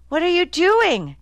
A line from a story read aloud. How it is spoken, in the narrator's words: Kiki shouted as she came running across the road, red-faced and wild-eyed